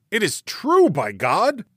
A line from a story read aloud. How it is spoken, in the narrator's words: he cried